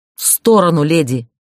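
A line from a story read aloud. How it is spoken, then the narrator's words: Barking. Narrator (Russian): рявкнул он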